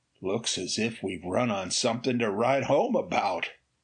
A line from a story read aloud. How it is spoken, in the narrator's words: Ray muttered in amazement